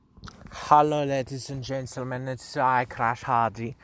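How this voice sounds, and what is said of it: Put-on accent. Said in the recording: “I don't know why I did that fucking accent at the beginning”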